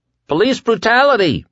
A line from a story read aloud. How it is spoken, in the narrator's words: some daring soul cried